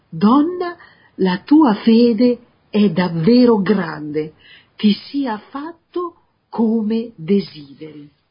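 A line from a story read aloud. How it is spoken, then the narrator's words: Exclaimed. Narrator (Italian): esclamare a Gesù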